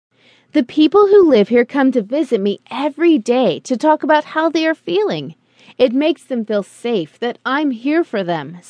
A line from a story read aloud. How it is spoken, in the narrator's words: said the nurse